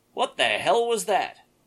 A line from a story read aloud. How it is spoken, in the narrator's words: someone yell anxiously down the hall